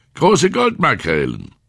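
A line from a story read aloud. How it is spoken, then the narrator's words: Old man, loud. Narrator (German): sagte der alte Mann laut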